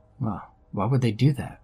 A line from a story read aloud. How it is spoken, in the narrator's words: I asked her